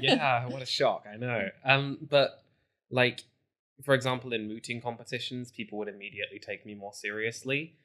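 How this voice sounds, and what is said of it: Southern American accent. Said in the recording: “as a white man with a southern accent”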